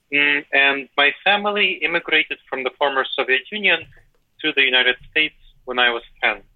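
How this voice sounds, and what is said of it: Eastern European accented English. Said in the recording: “I decided not to drop my accent because I appreciate that's part of my cultural heritage ... you could speak with a North American accent if you put in the effort”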